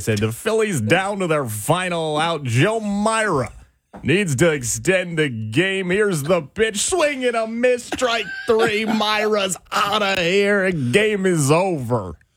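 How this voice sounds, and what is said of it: Baseball announcer play-by-play impression. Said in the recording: “such a good Harry Callis impression ... knows the voice”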